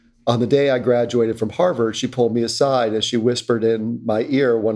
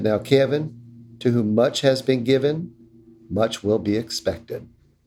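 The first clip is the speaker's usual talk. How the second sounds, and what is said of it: Imitates another person's accent. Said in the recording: “I always do my mother in her accent because that's the only way I can hear her voice in my head”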